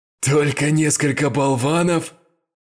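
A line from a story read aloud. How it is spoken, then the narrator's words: Loud laugh, huge man. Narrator (Russian): Громко рассмеялся огромный бандит, вероятно, их босс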